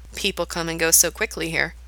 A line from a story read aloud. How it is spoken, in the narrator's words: Gerard mutters to himself